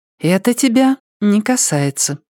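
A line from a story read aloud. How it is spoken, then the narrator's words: Said calmly. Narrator (Russian): спокойно сказала она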